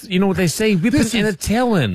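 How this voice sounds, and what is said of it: Cartoon character voice. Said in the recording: “What was that accent? ... He's got a Bugs Bunny ... that Bugs Bunny range”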